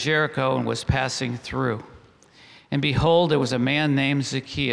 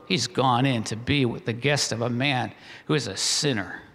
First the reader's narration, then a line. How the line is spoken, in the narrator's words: they all grumbled